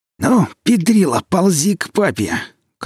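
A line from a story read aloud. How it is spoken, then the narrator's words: Bloodthirsty hiss. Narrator (Russian): кровожадно прошипел нищий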